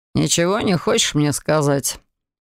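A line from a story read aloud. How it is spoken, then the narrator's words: Unusually tender question. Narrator (Russian): Непривычно ласковым тоном поинтересовался он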